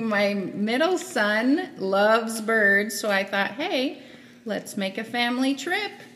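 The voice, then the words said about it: Radio announcer voice. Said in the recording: “you don't have to talk in radio voice. That is not how you sound in real life”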